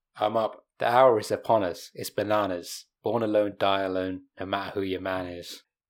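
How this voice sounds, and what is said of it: British accent. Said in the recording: “Doesn't really work in a British accent.”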